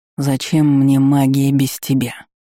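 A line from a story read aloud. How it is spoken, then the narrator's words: Bitter, fatalistic dragon growl. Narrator (Russian): В голосе дракона прозвучали рычащие нотки, но не пугающие, а пронизанные горечью и фатализмом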